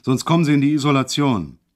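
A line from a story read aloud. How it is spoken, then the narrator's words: Sudden bellow. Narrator (German): brüllte auf einmal los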